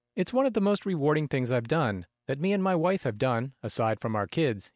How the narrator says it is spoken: said

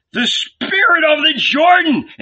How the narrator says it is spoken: seeing the old man emerge from the deep, all covered with mud, shouted

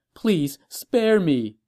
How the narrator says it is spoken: the quivering empress begged

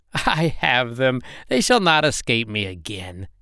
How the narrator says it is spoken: she laughed wickedly, saying

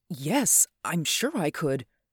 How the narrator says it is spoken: I answered, perhaps a little too eagerly

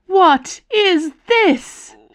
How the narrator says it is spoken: she screamed

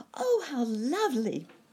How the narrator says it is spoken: cried Sammy

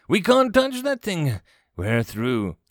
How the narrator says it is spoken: Prince Vigo of Mordovia, distinctly uncomfortable at being drawn away from his throne of blood, wailed

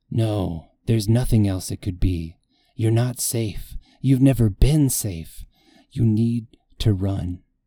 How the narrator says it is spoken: an icy serpent of fear coils in my belly, whispering

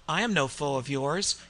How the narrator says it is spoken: Cain spoke calmly

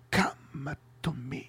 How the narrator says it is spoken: Ty-Zor's anticipating face as he whispers

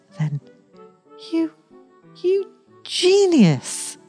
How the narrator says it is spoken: he cried

